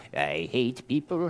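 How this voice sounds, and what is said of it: Imitates another person's voice. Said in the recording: “my impression of Albert Finney as Scrooge”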